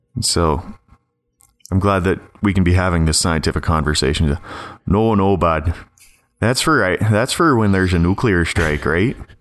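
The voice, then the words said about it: Rural Ontario Canadian accent. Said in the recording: “I've become increasingly more conscious of my accent ... This is an Ontario accent that you have ... This is the rural Ontario accent”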